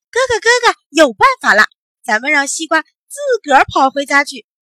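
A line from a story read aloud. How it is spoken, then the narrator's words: Loud shout. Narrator (Chinese): 小懒大声喊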